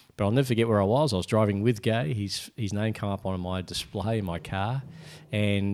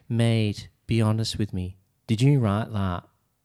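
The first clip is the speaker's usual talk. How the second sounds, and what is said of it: Imitates another person's accent. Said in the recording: “Can you do it in his accent?”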